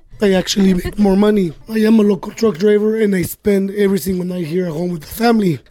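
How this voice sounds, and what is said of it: Hoarse, worn-out voice. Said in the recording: “sorry about my voice. I lost it over the weekend... Sounds hella crudo”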